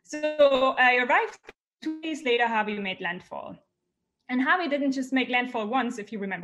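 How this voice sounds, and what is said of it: German accent. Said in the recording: “you noticed probably from my accent, I'm not from the US, I'm from Germany”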